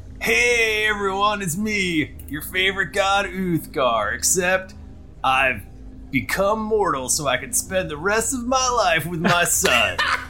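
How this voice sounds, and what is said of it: Character voice with a drifting accent. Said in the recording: “I don't know where my accent's going.”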